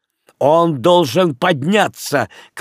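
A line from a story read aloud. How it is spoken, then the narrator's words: Shouted. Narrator (Russian): крикнул Леон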